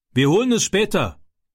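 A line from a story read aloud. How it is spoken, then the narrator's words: Called out. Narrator (German): rief er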